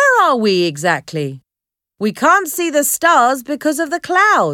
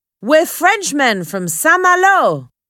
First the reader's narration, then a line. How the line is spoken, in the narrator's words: cried the men